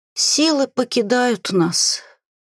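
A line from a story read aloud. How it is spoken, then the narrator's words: Hoarse rasp with coughing. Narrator (Russian): прохрипела и натурально так закашлялась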